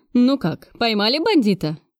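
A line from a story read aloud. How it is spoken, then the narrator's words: Cheerful question. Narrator (Russian): поинтересовался весело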